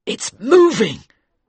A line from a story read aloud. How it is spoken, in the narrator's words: the captain cried